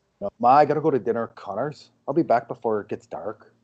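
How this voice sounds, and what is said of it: Good put-on Irish accent. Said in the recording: “the best Irish accent we've heard on this on this podcast ... From a non-Irish person”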